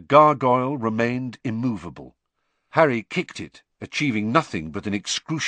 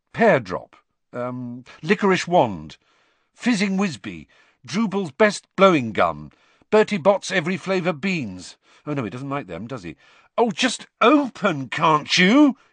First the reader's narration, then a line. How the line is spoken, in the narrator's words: he said angrily